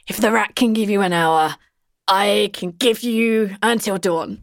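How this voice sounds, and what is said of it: Weak impression of Grimsh. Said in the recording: “try my best Grimsh impression ... she's like really bad at this, by the way”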